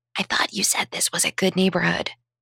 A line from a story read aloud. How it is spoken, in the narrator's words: 16-year-old daughter hissed